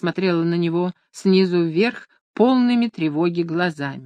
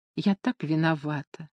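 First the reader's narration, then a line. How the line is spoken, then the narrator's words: Apologetic whisper. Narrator (Russian): извиняющимся тоном шептала она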